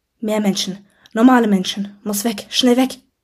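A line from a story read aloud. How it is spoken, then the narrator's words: Hissing voice inside heads. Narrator (German): zischte die Stimme wieder in unseren Köpfen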